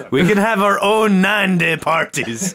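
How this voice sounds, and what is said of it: Inaccurate put-on accent, sounds Russian. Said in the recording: “This is a totally inaccurate accent, but I'm using it because it makes people laugh ... best wrong accent ... You sound like Ruski.”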